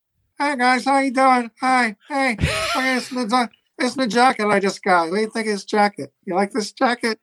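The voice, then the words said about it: Imitates another person's voice. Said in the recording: “That's pretty good impression. I like it.”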